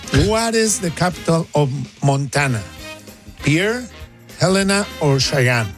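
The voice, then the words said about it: Speaks with a noticeable accent. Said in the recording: “by now you guys are used to my accent”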